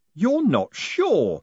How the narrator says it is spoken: he yelled

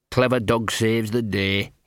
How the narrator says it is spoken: muttered

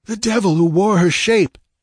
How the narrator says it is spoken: panted Valerius

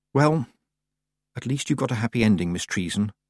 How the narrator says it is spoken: Tiffany whispered

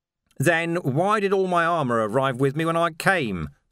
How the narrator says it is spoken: said Vimes

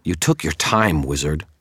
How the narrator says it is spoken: Terra snarled

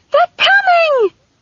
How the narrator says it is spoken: she screamed about the din

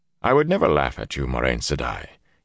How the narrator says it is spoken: had replied calmly

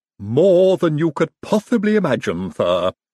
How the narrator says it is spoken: said Igor happily

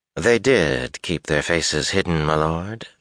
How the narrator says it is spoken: she drawled

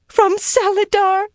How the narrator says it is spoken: she squealed

